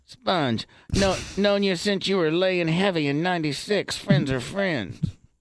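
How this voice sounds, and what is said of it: Deliberately bad imitation of another person. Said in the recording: “the worst Dion impersonation ... It's funny in that it's bad ... It's so bad”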